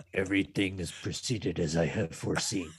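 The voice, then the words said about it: Sinister emperor character voice. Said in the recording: “my best emperor voice”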